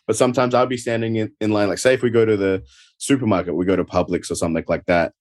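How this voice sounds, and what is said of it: Australian (Adelaide) accent. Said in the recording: “the Adelaide accent is a little different to your general Australian. So a lot of the times here, people will say, are you from England? Or they'll think I'm British”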